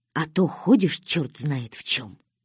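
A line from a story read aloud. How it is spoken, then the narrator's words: Whisper. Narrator (Russian): шепнул даритель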